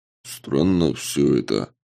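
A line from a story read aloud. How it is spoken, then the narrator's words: Muffled mutter under breath. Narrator (Russian): глухо пробурчал Самат себе под нос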